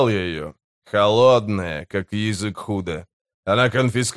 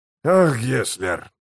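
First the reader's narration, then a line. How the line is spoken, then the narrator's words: Sighing. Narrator (Russian): вздохнул смычок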